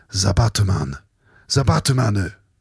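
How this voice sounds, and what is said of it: Put-on Japanese accent. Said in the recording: “That's just me saying the Batman in a Japanese accent.”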